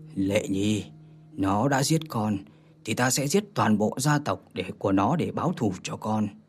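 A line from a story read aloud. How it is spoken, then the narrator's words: Muttering to oneself. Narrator (Vietnamese): Đằng Hóa Nguyên lẩm bẩm một mình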